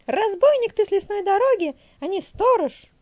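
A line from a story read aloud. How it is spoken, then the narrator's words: Shouting bird. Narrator (Russian): закричала сорока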